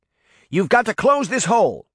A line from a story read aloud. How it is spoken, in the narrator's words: the older Daphne shouted, as she raced to her younger self